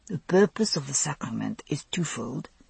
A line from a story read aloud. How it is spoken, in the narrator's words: Anselm went on, murmuring in my ear